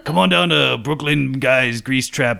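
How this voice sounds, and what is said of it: Put-on Brooklyn tough-guy accent. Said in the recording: “I don't know why my voice is changing. ... I'm starting to sound like some kind of Brooklyn grease trap guy. ... It sounds like the guy from the Grease Trap.”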